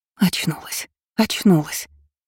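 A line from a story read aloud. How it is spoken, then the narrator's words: Whisper. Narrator (Russian): шептала та, чьего лица я не могла разглядеть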